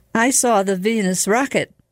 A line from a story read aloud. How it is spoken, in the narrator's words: cried Paolo